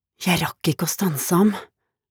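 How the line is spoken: Muttered quietly to himself. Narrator (Norwegian): mumlet han lavt til seg selv

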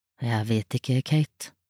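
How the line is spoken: Father speaking quietly. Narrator (Norwegian): sa faren stille

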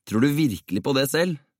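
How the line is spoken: Asking with a grin. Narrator (Norwegian): spurte P og flirte

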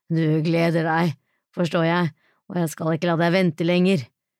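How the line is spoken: Panting close against neck. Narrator (Norwegian): peste han inn mot halsen hennes

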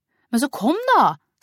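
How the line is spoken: Irritated. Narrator (Norwegian): sa Maria irritert

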